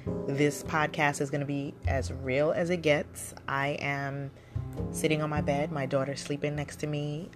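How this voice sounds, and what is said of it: Voice affected by a cold. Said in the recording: “I have a little bit of a cold.”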